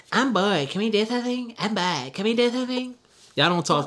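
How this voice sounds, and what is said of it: Annoying put-on voice. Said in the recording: “did an annoying voice”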